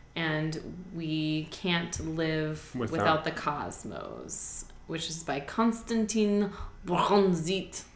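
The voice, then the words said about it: Unconvincing attempted Russian accent. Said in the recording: “That was supposed to be a Russian accent, but it was not successful ... you're mixing it with your Das Fraulein”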